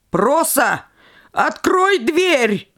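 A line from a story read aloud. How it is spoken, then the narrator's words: Shouted. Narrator (Russian): крикнул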